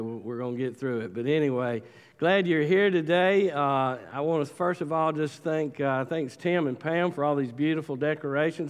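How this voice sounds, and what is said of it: Sick, congested voice. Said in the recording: “apologize for my voice today. As you can tell, I got a little bit of the Statesboro crud ... if I'm sniffling, coughing, and sneezing”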